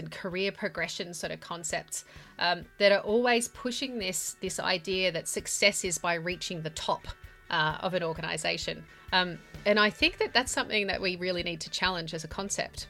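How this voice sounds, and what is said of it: Australian accent. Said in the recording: “that delightful Australian accent that you just heard”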